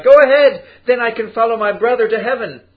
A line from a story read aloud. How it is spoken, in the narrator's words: Tong Sin cried